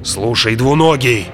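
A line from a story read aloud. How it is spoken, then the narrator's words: Growl. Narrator (Russian): прорычал он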